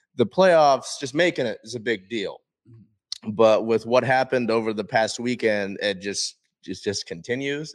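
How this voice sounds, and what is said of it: Hoarse, strained voice. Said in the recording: “you can tell I've been kind of losing my voice. ... Yeah, yelling.”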